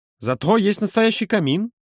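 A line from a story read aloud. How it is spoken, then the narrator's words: Exclaiming. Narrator (Russian): воскликнул Юра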